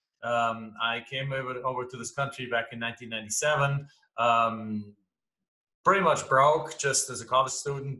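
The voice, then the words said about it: German accent. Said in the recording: “as you can tell from my accent, I'm not from here. I'm from Germany originally.”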